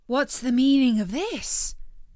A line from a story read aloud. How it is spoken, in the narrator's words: exclaimed the soldier